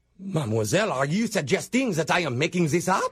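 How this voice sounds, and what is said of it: Put-on French accent. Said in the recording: “I hear an accent... you're putting on a French accent”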